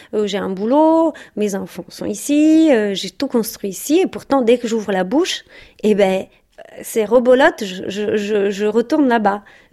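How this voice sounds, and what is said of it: Italian accent in French. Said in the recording (French): “j'ai un accent italien quand je parle français”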